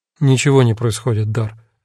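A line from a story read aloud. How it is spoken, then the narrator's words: Tired reply. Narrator (Russian): ответил я устало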